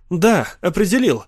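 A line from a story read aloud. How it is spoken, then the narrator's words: Sudden exclamation. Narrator (Russian): внезапно воскликнул Питер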